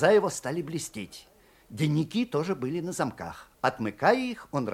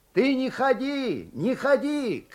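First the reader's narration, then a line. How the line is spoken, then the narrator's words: Shouting from a stall. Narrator (Russian): кричал он из денника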